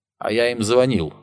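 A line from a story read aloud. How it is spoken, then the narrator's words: Plain. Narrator (Russian): ответил Ярлов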